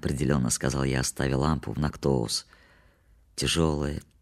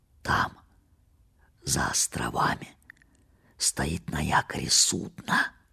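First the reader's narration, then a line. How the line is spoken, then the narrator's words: Whisper. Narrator (Russian): прошептал он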